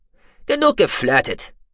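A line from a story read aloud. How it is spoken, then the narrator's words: Stern. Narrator (German): sagte er streng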